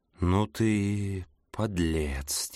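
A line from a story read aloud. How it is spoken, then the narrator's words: Quiet. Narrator (Russian): тихо сказал Пол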